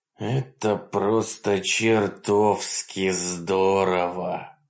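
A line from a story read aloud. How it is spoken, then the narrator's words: Groaning. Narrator (Russian): простонал Каннинг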